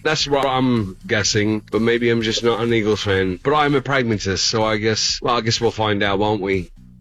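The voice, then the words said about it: Convincing English accent. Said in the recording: “if that's not a real English accent, that's phenomenal... is that a real accent or is that a fake one? Because it was tremendous... That was really good... Sounded real to me.”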